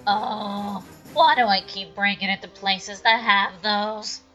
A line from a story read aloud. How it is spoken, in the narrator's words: He whined